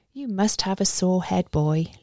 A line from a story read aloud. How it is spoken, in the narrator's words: Lyudov murmurs in a sing-song way that's similar to his humming